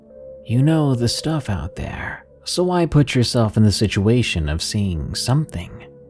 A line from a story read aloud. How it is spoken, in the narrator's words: sighed